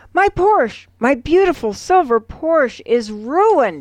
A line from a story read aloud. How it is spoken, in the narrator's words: he screams